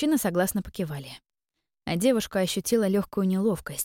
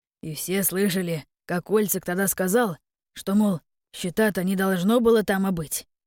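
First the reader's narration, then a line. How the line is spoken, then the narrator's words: Hoarse agreement, mercenary. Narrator (Russian): хрипло поддержал другой наемник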